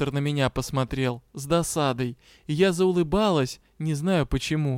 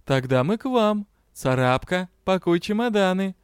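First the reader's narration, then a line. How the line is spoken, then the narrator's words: Cheerful. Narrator (Russian): весело заявил счастливчик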